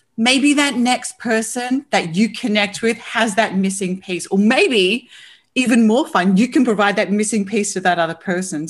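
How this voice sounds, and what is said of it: Australian accent. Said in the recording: “that beautiful accent ... we've had a couple Aussies on the podcast”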